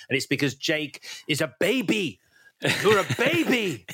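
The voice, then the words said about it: Imitating Neytiri's accent. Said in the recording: “You like doing this accent, don't you? ... I love it when she goes, you're like a baby.”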